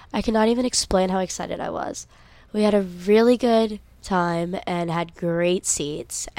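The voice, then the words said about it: Hoarse, worn-out tired voice. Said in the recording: “my voice is so gone, I am so tired”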